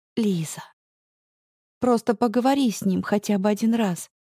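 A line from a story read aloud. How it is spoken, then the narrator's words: Soft, careful request. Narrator (Russian): прошу мягко и осторожно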